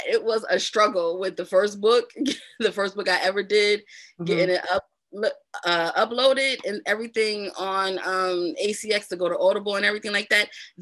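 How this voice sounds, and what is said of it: New Jersey urban accent. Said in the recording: “my Jersey accent ... I had no idea how Jersey I sounded ... You have a Jersey urban accent.”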